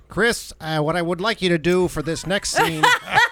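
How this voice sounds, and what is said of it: David Lynch impression. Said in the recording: “Does David Lynch talk like we think he talks when he directs you? ... That's pretty good. ... The one impersonation that I do”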